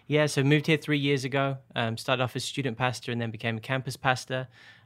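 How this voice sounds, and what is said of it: English accent. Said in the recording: “I'm from England... I grew up in Birmingham, but I've lived all over, so my accent has changed over time”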